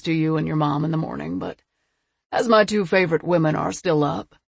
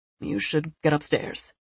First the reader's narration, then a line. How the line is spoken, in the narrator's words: he said, his voice a little gruff